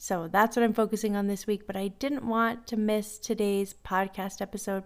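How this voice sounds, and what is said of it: Voice with a slight cold. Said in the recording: “I've got a little bit of a cold. ... woke up this morning with a little bit of a cold”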